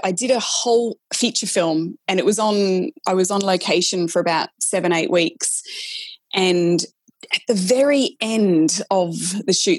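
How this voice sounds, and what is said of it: Australian accent. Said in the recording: “you sound australian ... he didn't even know that i was an aussie so that's i had to really mask my australian accent”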